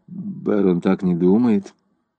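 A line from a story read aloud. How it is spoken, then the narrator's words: Muttered. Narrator (Russian): Селена пробормотала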